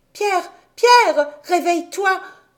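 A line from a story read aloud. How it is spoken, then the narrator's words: Exclaiming. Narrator (French): s'écria Heidi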